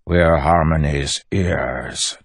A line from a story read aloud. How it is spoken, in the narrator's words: Tensun growled